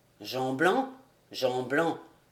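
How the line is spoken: Plain. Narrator (French): répondit-il

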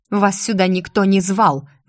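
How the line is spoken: Growled. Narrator (Russian): зарычала я

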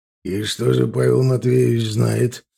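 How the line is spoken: Menacing question. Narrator (Russian): спросил Седой угрожающим тоном

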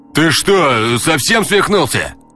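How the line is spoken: Guard yelling in strange voice. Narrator (Russian): Заорал не своим голосом второй охранник

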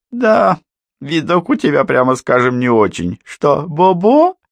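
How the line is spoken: Mocking laughter. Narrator (Russian): По издевательски расхохотался

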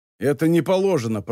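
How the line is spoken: Guard grumbling. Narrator (Russian): проворчал охранник

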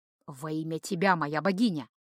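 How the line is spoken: Whisper. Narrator (Russian): шепнул Льот

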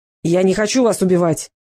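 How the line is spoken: Barked. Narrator (Russian): рявкнул гончар

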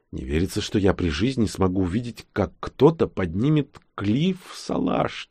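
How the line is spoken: Quiet. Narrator (Russian): тихо сказал он

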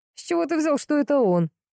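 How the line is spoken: Cheerful laughing. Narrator (Russian): весело рассмеялся Андрей

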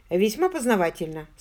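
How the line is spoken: Dry remark. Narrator (Russian): сухо обронил Джон

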